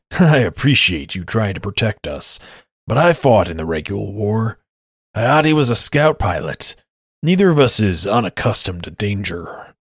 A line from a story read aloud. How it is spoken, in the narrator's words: Einar chuckles and says